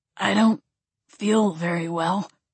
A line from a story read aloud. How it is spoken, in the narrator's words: Gabriel said, his voice strained as moisture pooled at the corners of his eyes